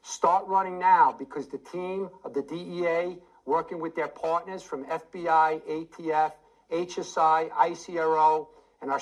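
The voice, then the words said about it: Strong New York accent. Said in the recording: “I can recognize a New York accent. Wow, does that guy ever have a New York accent?”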